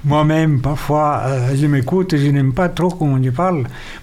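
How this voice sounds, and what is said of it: Speaks with an accent. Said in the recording (French): “j'ai un accent”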